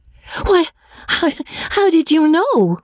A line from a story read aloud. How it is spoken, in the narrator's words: cried Magnolia, amazed